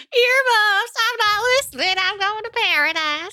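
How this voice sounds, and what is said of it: Imitated Arkansas Southern twang. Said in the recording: “her accent is so crazy to me... Everyone who is a native Texan also sounds roughly like that... She's from Arkansas. There's a little bit of a harder twang, I think, in hers... you're saying my accent work is perfect?... Your accent work is perfect”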